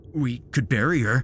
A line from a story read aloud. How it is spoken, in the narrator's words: suggested Tom, his voice tinged with panic